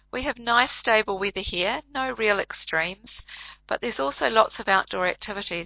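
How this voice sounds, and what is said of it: New Zealand accent. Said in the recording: “You can probably tell from my accent that I'm from the Southern Hemisphere, and I live in a small country called New Zealand.”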